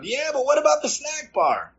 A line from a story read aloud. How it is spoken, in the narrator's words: Big Ed, still chewing, piped up